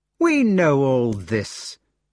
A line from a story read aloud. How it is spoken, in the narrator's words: exclaimed the youngest brother impatiently